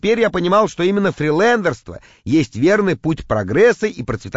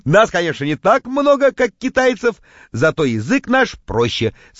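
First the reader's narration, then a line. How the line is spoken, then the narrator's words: Laughing. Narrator (Russian): смеялся я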